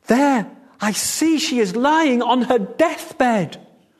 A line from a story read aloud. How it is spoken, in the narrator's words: Cried